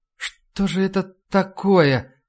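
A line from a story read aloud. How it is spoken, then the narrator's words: Moaning. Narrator (Russian): простонала мисс Клейн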